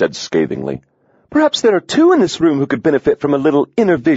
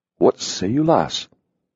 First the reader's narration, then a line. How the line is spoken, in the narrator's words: Hawks said softly